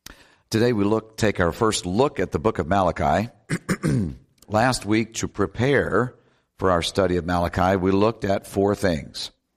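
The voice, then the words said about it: Deeper than normal, cold-affected voice. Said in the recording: “my voice is a little deeper than normal. It sounds much more impressive, but it's because of a cold”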